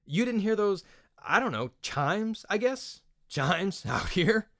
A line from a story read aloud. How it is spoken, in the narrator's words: Tyran's forced laughter